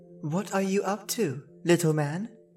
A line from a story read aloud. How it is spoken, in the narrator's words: asked Rose Red